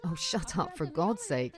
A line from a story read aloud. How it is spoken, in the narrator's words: he laughs